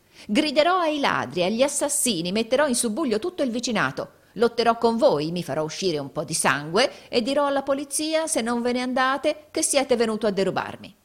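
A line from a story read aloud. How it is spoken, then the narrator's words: Horrible shriek. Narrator (Italian): rispose Gride con un orribile grido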